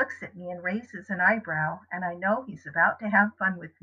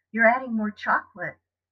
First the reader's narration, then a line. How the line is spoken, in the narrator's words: I sigh happily